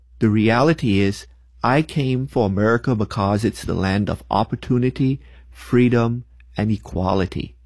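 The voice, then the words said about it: Non-American foreign accent. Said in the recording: “I am not originally from America. Most of y'all probably figured that out from my accent.”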